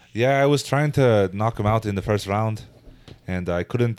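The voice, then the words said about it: Imitates another person's accent. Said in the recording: “Do your Conor McGregor accent.”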